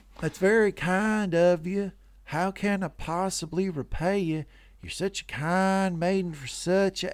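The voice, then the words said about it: Put-on Southern Georgian-Texas accent. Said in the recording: “a Southern guy's, like an old, like plantations, like Georgian accent ... It was that plus a little Texas. It was mixed. It was hitting a few notes.”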